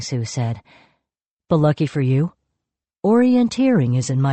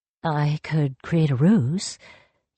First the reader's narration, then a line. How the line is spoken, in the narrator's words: Yang Chen muttered